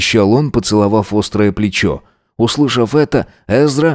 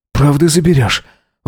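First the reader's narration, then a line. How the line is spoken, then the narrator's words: Sleepy breathy murmur. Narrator (Russian): выдохнул он, сонно моргая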